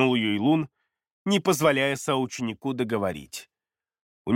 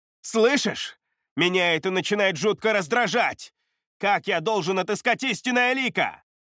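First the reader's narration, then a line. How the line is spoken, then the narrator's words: Silent mental shout. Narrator (Russian): Мысленно прокричал Вэйюэ, вслух говорить он по-прежнему не мог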